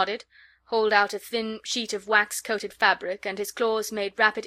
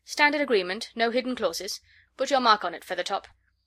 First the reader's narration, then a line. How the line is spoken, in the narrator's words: Vorongil said impatiently